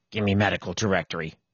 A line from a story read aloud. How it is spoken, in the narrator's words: he muttered